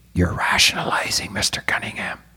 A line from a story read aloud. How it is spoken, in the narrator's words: suppressed a smile and whispered